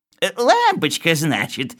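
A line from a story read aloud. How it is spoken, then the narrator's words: Old man giggling. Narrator (Russian): сказал старичок, хихикая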